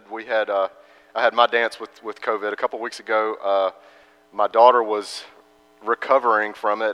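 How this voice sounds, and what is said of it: Congested, stuffy-nosed voice. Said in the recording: “As you could probably hear from my voice, I am still a little bit congested.”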